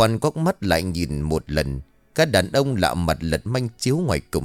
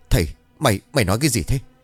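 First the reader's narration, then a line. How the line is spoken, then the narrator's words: Trembling question. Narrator (Vietnamese): Ông Chánh Cựu run rẩy hỏi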